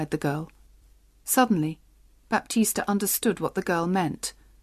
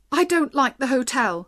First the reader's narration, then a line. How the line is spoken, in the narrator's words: cried